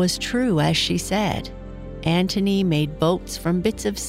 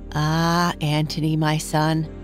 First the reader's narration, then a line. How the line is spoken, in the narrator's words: his mother would answer with a sigh